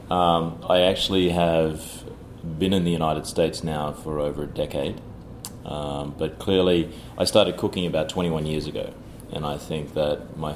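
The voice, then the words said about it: Non-New York, Australian-accented English. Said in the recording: “your accent betrays that you're not a New Yorker.”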